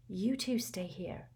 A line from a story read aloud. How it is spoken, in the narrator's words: whispered Hermione